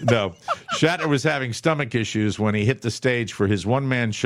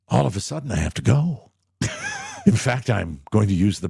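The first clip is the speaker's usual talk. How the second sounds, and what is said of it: William Shatner impression. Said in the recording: “my William Shatner impression.”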